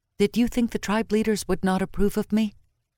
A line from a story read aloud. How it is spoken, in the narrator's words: Into the dark she whispered